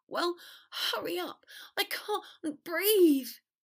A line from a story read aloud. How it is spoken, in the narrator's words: Potter gasped